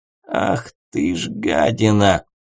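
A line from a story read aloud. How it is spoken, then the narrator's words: Breathless hoarse wheeze. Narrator (Russian): прохрипел третий старейшина, пытаясь отдышаться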